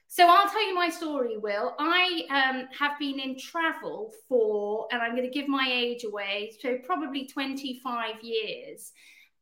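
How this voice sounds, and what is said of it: British accent. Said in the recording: “despite my accent, I'm actually Canadian as well as British”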